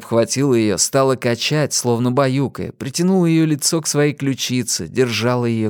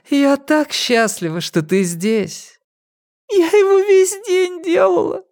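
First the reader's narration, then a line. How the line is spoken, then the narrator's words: Sobbing. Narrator (Russian): прорыдала Пип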